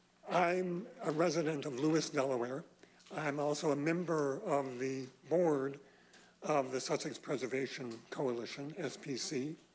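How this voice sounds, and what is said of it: Hoarse, strained, nearly lost voice. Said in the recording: “lost my voice”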